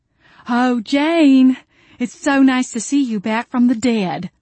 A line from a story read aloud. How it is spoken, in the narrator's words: Jolene drawl from behind me